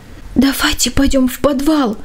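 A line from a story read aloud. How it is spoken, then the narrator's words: Anxious whisper. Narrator (Russian): тревожным шепотом предложил младший Джейк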